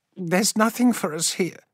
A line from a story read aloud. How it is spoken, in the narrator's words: she said, her voice shaking